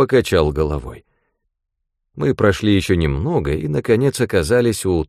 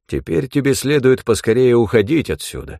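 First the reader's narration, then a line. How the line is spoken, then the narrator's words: Plain. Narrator (Russian): сказал Дворкин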